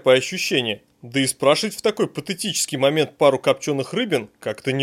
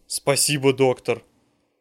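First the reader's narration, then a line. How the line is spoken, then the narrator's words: Heartfelt voice. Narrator (Russian): чертов однорукий начинает говорить прочувственным голосом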